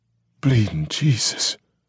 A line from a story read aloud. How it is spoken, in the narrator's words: Roman muttered stupidly